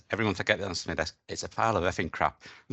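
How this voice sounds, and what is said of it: Broad Glaswegian accent. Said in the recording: “in his broad Glaswegian accent.”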